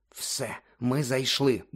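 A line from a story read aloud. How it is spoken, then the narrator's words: Muttering. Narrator (Ukrainian): бурмотів Гаррі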